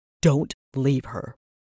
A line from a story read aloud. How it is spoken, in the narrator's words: he snarled